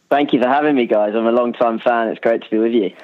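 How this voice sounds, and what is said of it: English accent. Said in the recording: “hear an English accent ... it's a good voice, isn't it?”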